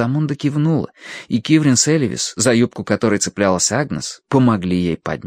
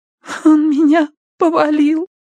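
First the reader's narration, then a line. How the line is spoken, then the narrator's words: Trembling babble. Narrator (Russian): пролепетала она дрожащим голосом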